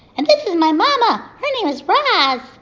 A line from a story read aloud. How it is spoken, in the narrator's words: shouted over the waves